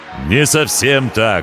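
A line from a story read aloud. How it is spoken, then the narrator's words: Ringing voice. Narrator (Russian): ответил пришелец звонким голосом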